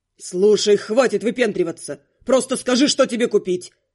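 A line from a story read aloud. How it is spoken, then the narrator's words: Bark. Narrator (Russian): рявкнул Каст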